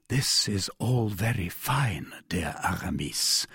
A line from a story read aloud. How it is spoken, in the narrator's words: murmured D'Artagnan